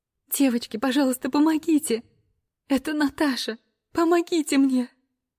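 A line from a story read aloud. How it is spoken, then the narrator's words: Sobbing distraught woman. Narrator (Russian): Рыдает несчастная женщина, потерявшая своего любимого питомца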